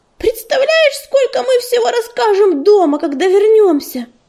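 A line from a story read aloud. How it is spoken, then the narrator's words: Excited squeal. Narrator (Russian): взвизгнула она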